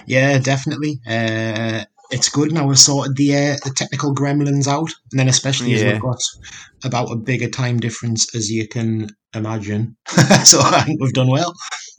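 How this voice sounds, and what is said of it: Speaks with a distinctive accent. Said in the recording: “how cool his accent was”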